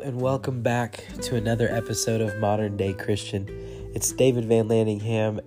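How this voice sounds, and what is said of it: Sick, under-the-weather voice. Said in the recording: “as you can kind of maybe tell by my voice, I'm a little under the weather”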